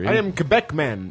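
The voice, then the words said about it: Jamaican-sounding accent. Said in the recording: “why did you sound Jamaican?”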